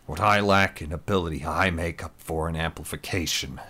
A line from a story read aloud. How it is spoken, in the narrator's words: Adam grumbled